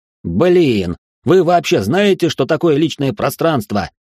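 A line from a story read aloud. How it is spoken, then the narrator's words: Shouting through an opening. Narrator (Russian): прокричал Гордей в пролом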